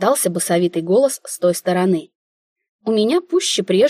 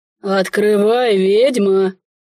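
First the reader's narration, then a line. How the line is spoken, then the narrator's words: Quieter deep bass. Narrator (Russian): Уже тише пробасил незваный гость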